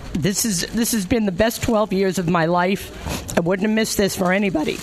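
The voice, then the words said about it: Tearful, emotional voice. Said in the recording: “the tears that you hear in my voice”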